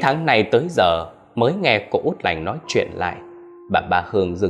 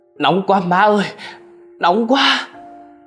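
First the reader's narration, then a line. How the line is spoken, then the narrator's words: Sudden cry of pain. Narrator (Vietnamese): tự dưng cô la lên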